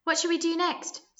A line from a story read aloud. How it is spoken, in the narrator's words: squeaked Sit, who was dressed as Dracula